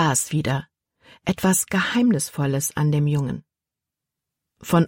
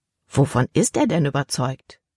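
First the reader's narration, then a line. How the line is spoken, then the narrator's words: Plain. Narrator (German): fragte Libby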